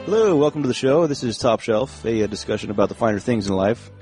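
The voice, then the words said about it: Lower, calmer voice. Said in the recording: “Notice my voice is lower and more calm as I talk on this show than the normal show.”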